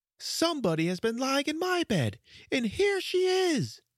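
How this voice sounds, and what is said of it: Small wee little-bear character voice. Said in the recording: “said the small little wee bear in his small wee voice”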